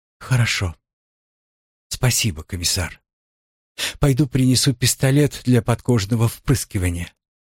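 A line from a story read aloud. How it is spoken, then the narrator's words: Sad sigh, barely audible. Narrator (Russian): Жаспар печально вздохнула и еле слышно произнесла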